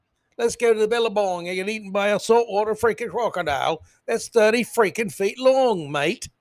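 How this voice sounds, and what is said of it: Clumsy put-on Australian accent. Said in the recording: “I probably butchered the Australian accent, went back and forth to Australian, British, who knows what.”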